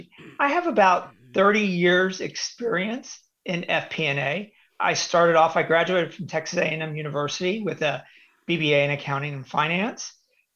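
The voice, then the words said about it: Slightly scratchy voice. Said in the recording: “excuse my voice, I'm recuperating from a cold, so it is a little scratchy.”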